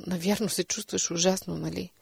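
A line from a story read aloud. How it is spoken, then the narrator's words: Gentle. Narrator (Bulgarian): казах нежно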